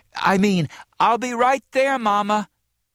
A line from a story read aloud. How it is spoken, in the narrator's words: she cried, exasperated, and then added quickly